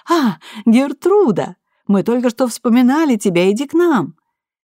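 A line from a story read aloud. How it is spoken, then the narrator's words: Exclaiming. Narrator (Russian): Монро воскликнул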